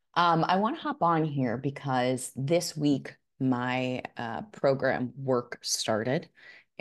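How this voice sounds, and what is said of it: Slightly froggy, sore-throat voice. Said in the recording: “I have a little bit of a sore throat ... my voice may sound a little, I don't know if I'm going to call it froggy, but it might sound a little interesting today”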